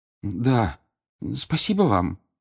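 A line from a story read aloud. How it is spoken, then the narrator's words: Timid babble. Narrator (Russian): пролепетал Гарри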